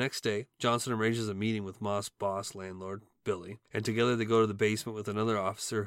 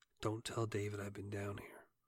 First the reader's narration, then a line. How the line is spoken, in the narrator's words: he quietly tells the tenant